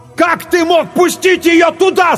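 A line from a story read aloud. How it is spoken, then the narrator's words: Yelling. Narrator (Russian): заорал Клайв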